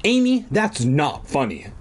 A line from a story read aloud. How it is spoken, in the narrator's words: Dad cried angrily